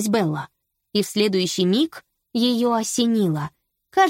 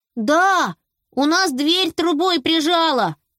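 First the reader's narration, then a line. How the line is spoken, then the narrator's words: Shouted. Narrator (Russian): прокричал Беня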